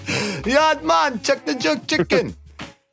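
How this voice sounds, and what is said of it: Bad put-on Jamaican accent. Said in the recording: “Jamaican ... Damn, that was a bad accent.”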